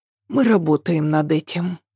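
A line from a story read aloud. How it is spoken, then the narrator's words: Sighing. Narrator (Russian): вздохнула Ася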